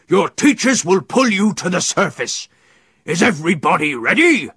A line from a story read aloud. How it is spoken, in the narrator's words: Captain Claw bellowed